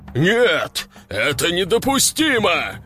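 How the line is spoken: King's growl. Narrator (Russian): зарычал король

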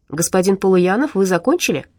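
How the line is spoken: Calm host's question. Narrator (Russian): спокойно спросил ведущий в студии Диму

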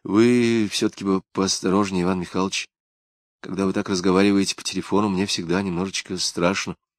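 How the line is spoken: Quiet reply. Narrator (Russian): тихо ответила она

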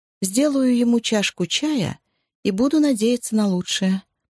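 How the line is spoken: Attempted joke. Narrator (Russian): попыталась пошутить Джози

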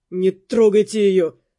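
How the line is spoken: Gloomy. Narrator (Russian): мрачно сказал он

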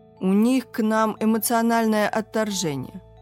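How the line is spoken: Plain. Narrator (Russian): сказал Артем

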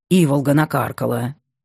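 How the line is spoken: Grumbling. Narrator (Russian): ворчал Чухрай

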